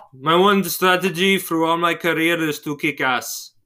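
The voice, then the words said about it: Impression of a Russian-accented voice. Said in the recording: “I can do a pretty good impression of ... Because he's Russian.”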